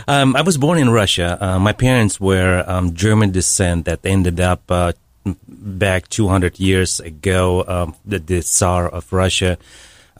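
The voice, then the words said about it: Noticeable foreign accent. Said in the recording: “where's the accent come from?”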